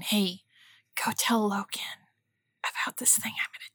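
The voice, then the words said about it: Honeyed, steely whisper. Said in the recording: “honeyed whisper steel voice”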